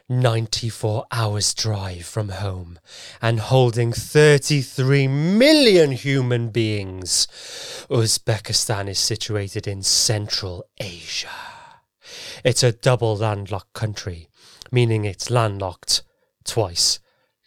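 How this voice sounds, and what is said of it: Theatrical thespian-style accent. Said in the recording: “Say it in your best, like a thespian accent.”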